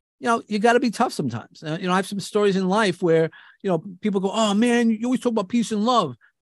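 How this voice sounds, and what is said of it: New York accent. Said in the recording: “as you hear, I have a New York accent ... using my New York accent”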